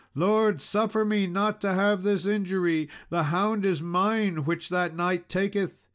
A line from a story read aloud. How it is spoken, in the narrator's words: a lady who cried out to the king